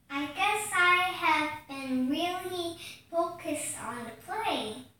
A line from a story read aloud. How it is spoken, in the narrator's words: said Ellie